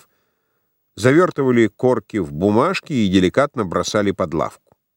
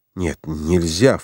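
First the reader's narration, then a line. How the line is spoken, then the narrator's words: Low undertone. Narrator (Russian): вполголоса сказал Франц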